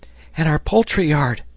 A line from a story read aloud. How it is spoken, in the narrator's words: exclaimed Herbert